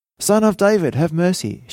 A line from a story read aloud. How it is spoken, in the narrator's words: she cried again